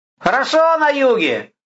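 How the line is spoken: Shouted reply. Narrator (Russian): закричал воин в ответ

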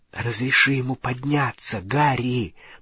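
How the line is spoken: Whispered. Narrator (Russian): прошептала Гермиона

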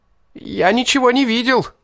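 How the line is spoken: Desperate shriek. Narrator (Russian): взвизгнул отчаянно

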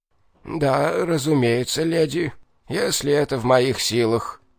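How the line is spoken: Creaky voice. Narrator (Russian): проскрипел

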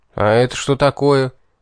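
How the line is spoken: Gloomy question. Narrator (Russian): мрачно поинтересовался я у Рогатого

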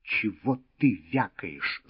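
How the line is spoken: Angry. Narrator (Russian): зло сказал Волк коту

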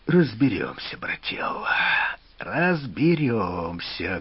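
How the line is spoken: Muffled voice. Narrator (Russian): глухо раздался из-под ткани его голос

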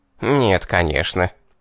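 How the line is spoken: Reluctant snort. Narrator (Russian): фыркнул бес и нехотя признал

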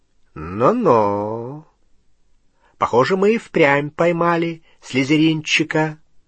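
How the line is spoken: Drawl. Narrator (Russian): протянул Струпьер

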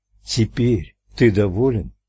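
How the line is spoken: Gentle repeated question. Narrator (Russian): Ральф мягко повторил свой вопрос

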